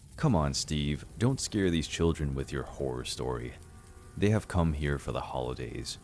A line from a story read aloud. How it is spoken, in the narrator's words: Grandma said in a serious tone